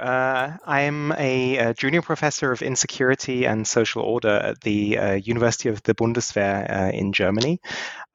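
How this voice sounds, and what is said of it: British accent. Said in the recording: “as you can probably tell by my accent, I was born in the UK”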